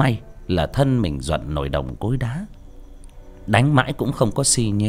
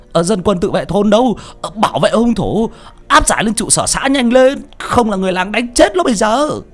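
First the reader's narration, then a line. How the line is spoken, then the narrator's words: Frightened shout. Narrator (Vietnamese): Ông sợ hãi quát lên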